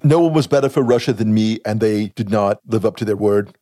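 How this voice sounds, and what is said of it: Donald Trump impression. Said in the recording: “both ... and ... are doing Trump impersonations ... Trump imitation. It's low end. It's low rent. It doesn't work.”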